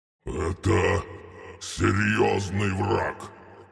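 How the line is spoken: Gatekeeper's growl. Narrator (Russian): рыкнул привратник

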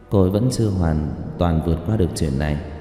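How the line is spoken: Soft. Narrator (Vietnamese): Dương công tử nói khẽ

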